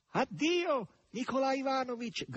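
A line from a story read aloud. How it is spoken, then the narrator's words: Shouting. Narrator (Italian): gridò Margherita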